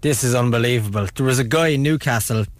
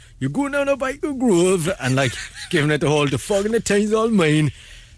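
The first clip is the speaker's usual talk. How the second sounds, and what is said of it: Put-on Geordie accent. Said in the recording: “He was a Geordie, proper Geordie”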